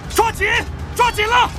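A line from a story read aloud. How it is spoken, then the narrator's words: Shouting. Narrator (Chinese): 他听到他大喊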